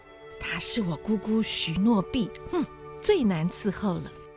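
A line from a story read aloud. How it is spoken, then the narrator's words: Soft reply. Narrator (Chinese): 罗莎莉轻声回答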